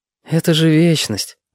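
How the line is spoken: Sighing. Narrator (Russian): вздохнул Витька

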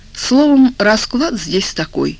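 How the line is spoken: Calm speech. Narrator (Russian): спокойно говорил Турецкий

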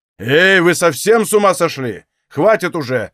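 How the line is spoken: Shouted. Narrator (Russian): закричал со своего места Ашер

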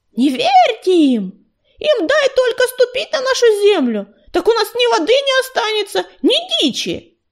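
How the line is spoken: Loud yell. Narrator (Russian): кто-то из ее соплеменников громко завопил

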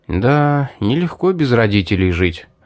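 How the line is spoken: Sighing. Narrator (Russian): вздохнул

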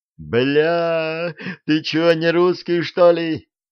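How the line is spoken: Yelling. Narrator (Russian): завопил Бирюков

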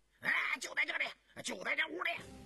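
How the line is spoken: Urgent shout. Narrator (Chinese): 有人喊着

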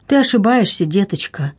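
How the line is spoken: Sad continuation, duchess. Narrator (Russian): печально продолжала герцогиня

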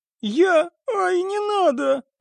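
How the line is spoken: Sobbing. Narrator (Russian): разрыдалась певица

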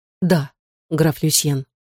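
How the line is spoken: Soft. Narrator (Russian): мягко сказала

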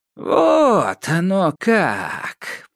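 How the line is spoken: Drawling. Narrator (Russian): протянула Яга

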